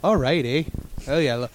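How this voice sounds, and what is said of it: Put-on Canadian accent. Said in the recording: “Kevin's always clamoring for more Canadian characters.”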